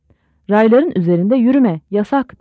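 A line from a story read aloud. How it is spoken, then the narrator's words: Shouting. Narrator (Turkish): diye bağırdı Şeptunov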